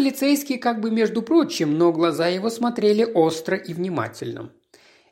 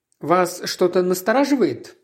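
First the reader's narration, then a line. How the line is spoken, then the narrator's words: Plain. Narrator (Russian): спросил Джеб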